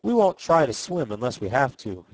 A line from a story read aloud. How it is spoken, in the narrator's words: he said